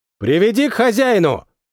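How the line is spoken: Curious shout. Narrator (Russian): Следуя за своим любопытством, прокричал один из них

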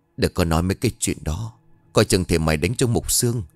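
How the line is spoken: Tender, murmuring. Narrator (Vietnamese): xót con lắm, thủ thỉ

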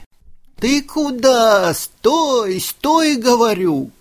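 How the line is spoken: Old woman shouting. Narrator (Russian): кричала бабушка

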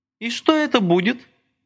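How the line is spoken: Crystal-clear female voice. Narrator (Russian): хрустальным голоском осведомилась она

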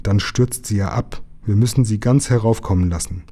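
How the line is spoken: Growl through clenched pipe. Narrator (German): knurrte er, die Pfeife zwischen den Zähnen

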